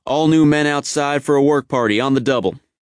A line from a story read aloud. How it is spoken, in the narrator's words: 1st Sergeant Malone, would come down the company street shouting